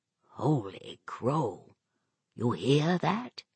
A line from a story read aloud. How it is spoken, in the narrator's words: Magruder whispered